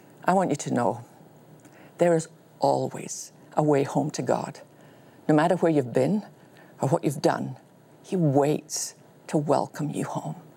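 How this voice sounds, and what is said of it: Woman with an unusual accent. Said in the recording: “a woman with a funny accent”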